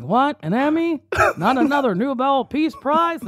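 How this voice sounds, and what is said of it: Bad Barack Obama impression. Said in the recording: “That was a terrible Obama impression. ... It was bad.”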